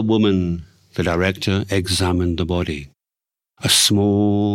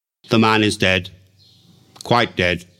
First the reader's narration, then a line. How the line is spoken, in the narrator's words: said the director gravely